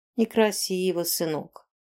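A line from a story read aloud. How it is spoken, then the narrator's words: Weary reproach. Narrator (Russian): устало попеняла она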